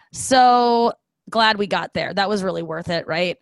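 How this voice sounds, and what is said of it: Usual voice. Nothing is said of it.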